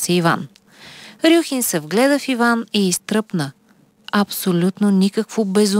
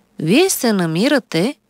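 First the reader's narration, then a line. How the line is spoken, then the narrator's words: Calm doctor speaking. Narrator (Bulgarian): спокойно заговори лекар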